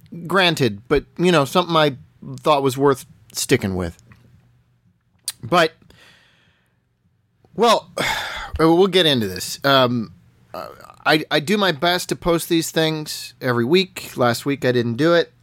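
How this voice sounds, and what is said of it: Congested, stuffy voice. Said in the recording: “hear it in my voice. I'm still a little congested from a head cold”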